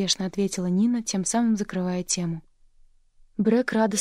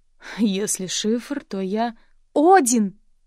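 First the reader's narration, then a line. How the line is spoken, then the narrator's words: Exclamation. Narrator (Russian): воскликнула Брэк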